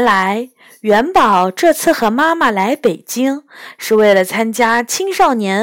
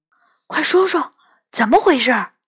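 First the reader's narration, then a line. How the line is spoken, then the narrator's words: Eager whisper. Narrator (Chinese): 我来了兴致，小声问他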